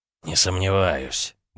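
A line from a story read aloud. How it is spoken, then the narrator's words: Grumbled mutter. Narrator (Russian): буркнул Улдис культя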